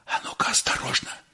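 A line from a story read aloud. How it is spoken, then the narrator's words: Whisper. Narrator (Russian): шепнул Щукин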